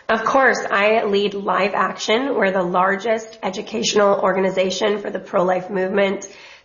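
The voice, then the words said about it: Raspy voice from illness. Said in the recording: “apologies for my voice. I'm a little bit sick, so it's a bit raspy”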